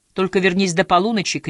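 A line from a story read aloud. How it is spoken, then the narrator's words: Shouting after someone. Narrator (Russian): крикнула ему вслед Хиллари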